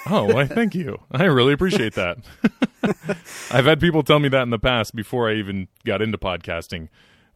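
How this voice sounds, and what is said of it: Rich radio-style speaking voice. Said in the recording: “you have an incredible radio voice ... he's got a really good radio voice.”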